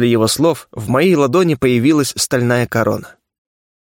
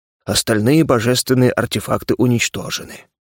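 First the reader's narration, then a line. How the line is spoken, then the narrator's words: Sad sigh. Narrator (Russian): грустно вздохнул смельчак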